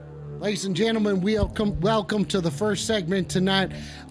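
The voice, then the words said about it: Put-on cowboy accent. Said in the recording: “Stop asking about my accent. ... I'm a cowboy baby.”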